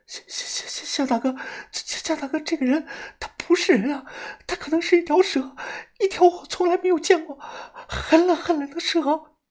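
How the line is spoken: Trembling voice. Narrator (Chinese): 蛇女的声音发颤了

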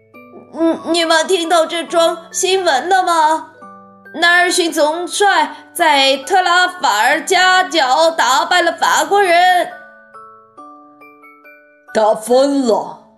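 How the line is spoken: Old woman calling out. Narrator (Chinese): 老太太叫道

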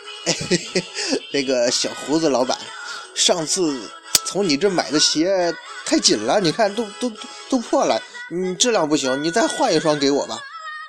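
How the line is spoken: Sly laughing tone. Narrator (Chinese): 樱木花道则坏笑道

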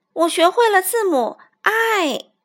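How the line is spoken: Excited cry. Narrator (Chinese): 小老鼠非常兴奋的叫道

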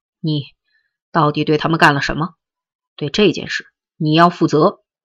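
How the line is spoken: Angry demand. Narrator (Chinese): 陈诚曾就此事愤怒的责问过边亚军

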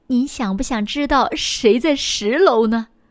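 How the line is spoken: Smiling. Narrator (Chinese): 服务员微笑着说

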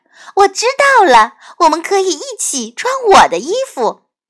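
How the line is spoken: Exclaiming. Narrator (Chinese): 苏菲亚叫了起来

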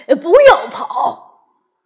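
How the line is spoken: Laughing shout. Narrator (Chinese): 马斌先生笑了，他在后面喊

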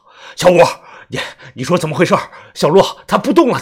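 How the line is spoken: Sudden loud speech. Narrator (Chinese): 突然 大声地说道

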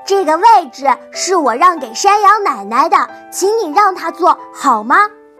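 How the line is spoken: Loud. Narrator (Chinese): 狐狸也大声地说

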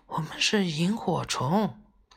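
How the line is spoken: Soft small voice. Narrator (Chinese): 那一闪一闪一闪的小东西小声的说

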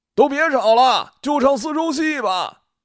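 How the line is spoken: Shout from the crowd. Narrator (Chinese): 人群里，不知谁大喊了一句

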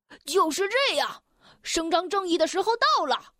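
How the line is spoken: Shouting. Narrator (Chinese): 弗拉士……他大叫着

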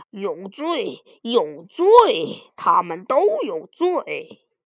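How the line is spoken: Constant muttering. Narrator (Chinese): 都有罪警长嘴里不停地嘟囔着

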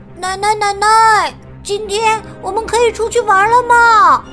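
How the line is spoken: Happy shout, child. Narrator (Chinese): 宝利诺高兴的喊道

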